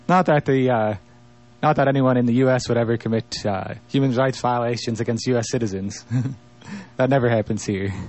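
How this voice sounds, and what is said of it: Sarcastic tone. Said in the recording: “I'm being sarcastic there, ... just to be clear.”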